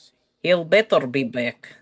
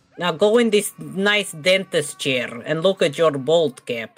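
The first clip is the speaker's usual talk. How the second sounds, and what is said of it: Put-on comic accent. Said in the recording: “with my accent.”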